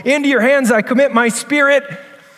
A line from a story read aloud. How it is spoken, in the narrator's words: he cried out in the words of this psalm